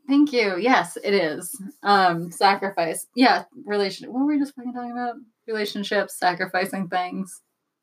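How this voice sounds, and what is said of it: Hoarse, fading voice. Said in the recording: “I'm like casually losing my voice.”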